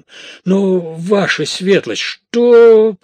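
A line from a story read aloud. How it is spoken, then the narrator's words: Booming. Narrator (Russian): прогремел Манфред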